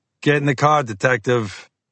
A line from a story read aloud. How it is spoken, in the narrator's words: the driver called out